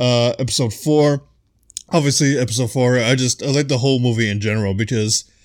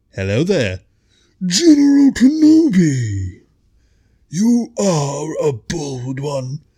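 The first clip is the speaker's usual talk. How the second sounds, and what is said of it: General Grievous impression. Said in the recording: “my General Grievous impression”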